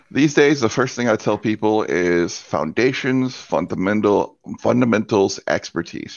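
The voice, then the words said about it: Deep radio voice. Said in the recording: “my stylishly deep radio voice”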